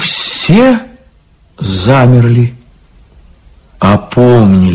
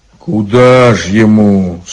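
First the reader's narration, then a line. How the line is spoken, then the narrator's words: Sad question. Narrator (Russian): спросил Илья грустно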